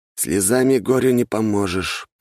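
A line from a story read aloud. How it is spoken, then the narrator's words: Grumbling. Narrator (Russian): пробурчал Собакин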